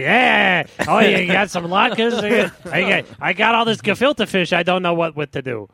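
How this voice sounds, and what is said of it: Old Jewish lady accent. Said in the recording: “Every voice I do is an old Jewish lady. ... It really is the best accent.”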